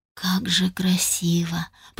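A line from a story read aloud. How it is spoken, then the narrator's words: Whispered. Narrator (Russian): прошептала я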